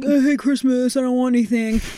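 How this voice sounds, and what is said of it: Imitates another person's voice. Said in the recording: “That's a good impression. ... That's how he talks.”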